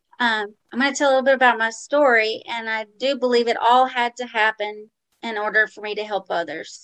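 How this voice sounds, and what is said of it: New Orleans Southern accent. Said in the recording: “I grew up in New Orleans, Louisiana. So I guess y'all could tell my accent.”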